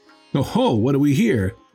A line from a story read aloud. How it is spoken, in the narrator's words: they cried